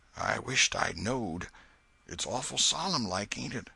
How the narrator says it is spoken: Huckleberry whispered

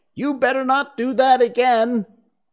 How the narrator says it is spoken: said to herself, and shouted out

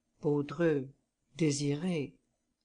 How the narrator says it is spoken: Then, making a desperate effort, he murmured

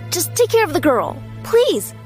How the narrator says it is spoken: I cried

